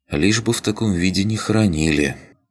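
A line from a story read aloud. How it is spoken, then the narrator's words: Sigh. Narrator (Russian): вздохнула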